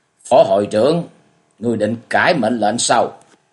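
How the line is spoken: Cold. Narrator (Vietnamese): Dương Quá vẫn lạnh lùng nói

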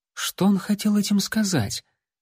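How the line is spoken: Suspicious whisper. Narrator (Russian): подозрительно прошептала Лайла

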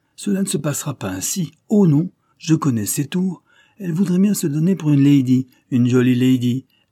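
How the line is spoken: Exclaimed. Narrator (French): s'écria Dick

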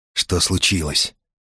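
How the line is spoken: Quiet question. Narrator (Russian): тихо спросил Бегович

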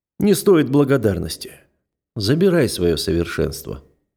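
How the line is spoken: Deliberately casual. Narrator (Russian): нарочито небрежным тоном произношу я

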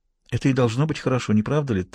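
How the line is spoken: Whispered reply. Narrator (Russian): так же шепотом ответила она

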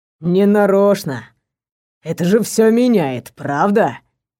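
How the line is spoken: Ingratiating drawl. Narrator (Russian): Вкрадчиво протянул

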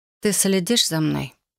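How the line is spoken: Dry question. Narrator (Russian): сухо спросила я

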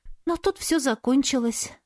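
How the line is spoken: Sighing. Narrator (Russian): вздохнула подруга

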